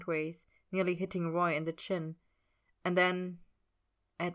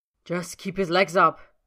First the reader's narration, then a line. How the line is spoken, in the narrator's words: Roy snaps